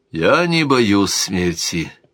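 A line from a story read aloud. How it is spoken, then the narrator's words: Calm. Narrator (Russian): спокойно глядя в глаза Стефана, сказал бродяга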